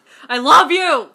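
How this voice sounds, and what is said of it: Loud yelling. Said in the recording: “Why are you yelling at me?... I'm sorry for any headphone users.”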